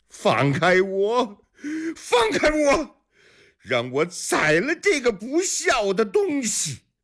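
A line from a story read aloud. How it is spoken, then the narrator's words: Furious shouting while struggling. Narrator (Chinese): 李元昌挣扎着想从几个家丁手里拖出身来，嘴里气急败坏地喊着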